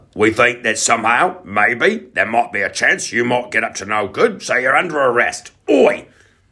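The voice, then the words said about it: Put-on accent. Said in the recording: “Oh, I should have done an accent.”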